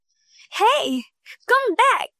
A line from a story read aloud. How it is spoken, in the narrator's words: shouted Kulsum